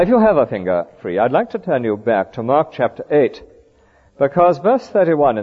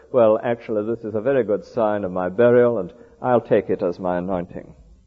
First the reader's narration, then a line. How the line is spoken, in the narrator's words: very gloomily, says